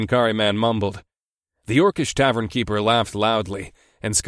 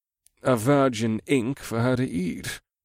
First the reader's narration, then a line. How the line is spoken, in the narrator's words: the thief muttered from behind his hands